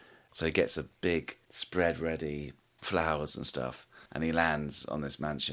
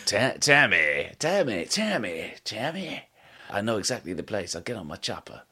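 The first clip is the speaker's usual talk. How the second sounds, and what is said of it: Burt Reynolds impression. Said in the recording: “Can you do a Bert Reynolds impression?”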